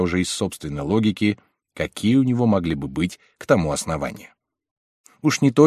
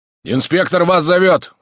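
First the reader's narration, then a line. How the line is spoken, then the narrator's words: Distant shouting. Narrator (Russian): кричали оттуда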